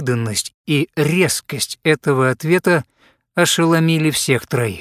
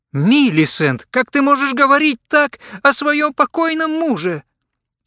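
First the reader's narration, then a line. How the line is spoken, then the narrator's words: Exclaimed. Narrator (Russian): воскликнула миссис Скиннер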